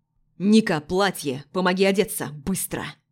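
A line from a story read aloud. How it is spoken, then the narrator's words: Low bark. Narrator (Russian): Низко рявкнул Денис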